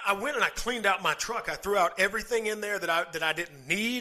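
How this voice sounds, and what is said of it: Southern American accent. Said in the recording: “my southern accent ... I love your southern accent”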